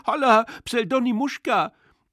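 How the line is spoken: Unnatural whining shout. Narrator (German): Jemand schrie mit unnatürlicher Winselstimme

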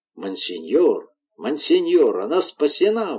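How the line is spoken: Exclaiming. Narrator (Russian): воскликнул Балье

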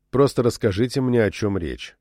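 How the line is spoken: Calm repeated request. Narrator (Russian): спокойно повторил свою просьбу Чак

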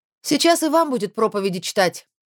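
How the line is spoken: Distant shout. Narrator (Russian): крикнула издалека

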